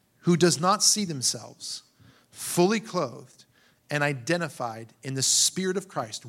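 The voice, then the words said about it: Reads slowly and deliberately. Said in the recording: “I'm going to read this slowly.”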